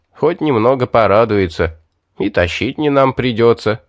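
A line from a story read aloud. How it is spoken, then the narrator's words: Chuckling. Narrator (Russian): хохотнул он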